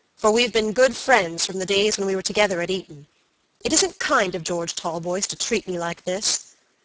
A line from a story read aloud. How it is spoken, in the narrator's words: said Robert gravely